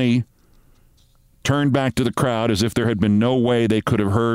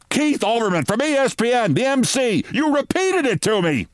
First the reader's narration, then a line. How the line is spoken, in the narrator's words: Fran Ryder screamed